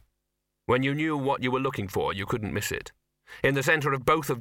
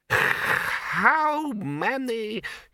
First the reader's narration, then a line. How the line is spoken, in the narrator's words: he stopped and began to wheeze